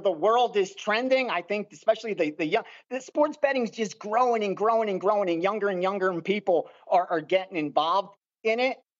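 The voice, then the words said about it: Philly accent with mixed influence. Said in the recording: “Is that a Philly accent? Is that a Philly or Baltimore? ... it's a Philly mixed with whatever else that is accent.”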